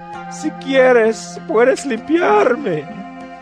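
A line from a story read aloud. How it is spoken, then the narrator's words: Begging on knees. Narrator (Spanish): un hombre que tenía lepra se le acercó y de rodillas le suplicó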